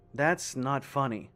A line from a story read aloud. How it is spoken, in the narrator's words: I said dryly